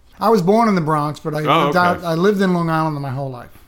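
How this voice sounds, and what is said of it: New York accent. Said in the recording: “I'm always a New Yorker. I still talk to people that say, you're from New York. You can tell my accent.”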